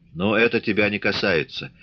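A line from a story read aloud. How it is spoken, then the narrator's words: Cold. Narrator (Russian): холодно сказал Григорий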